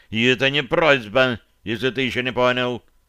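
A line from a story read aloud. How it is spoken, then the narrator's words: Added sternly. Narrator (Russian): добавил он строго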